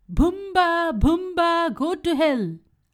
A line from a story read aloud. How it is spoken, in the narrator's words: Joju shouted